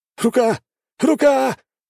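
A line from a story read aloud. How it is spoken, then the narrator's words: Fighter howling in pain. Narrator (Russian): взвыл боец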